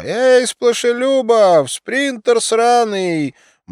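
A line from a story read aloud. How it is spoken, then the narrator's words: Old woman shouting. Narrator (Russian): Пожилая женщина крикнула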